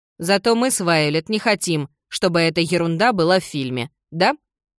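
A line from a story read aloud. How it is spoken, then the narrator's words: Very loud. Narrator (Russian): Джардин говорила так громко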